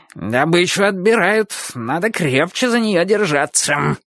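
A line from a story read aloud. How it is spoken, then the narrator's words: Growled, puppy. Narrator (Russian): прорычал щенок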